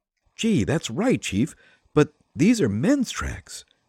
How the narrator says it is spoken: said Patsy, eagerly

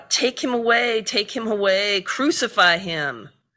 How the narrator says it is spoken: The Jewish leaders cried out

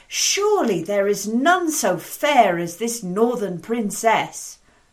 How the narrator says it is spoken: one of the knights ... called out

